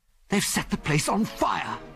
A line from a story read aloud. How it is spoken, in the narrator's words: gasped Biggles